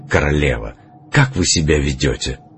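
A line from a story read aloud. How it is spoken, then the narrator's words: Whispered reproachfully. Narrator (Russian): прошептал даже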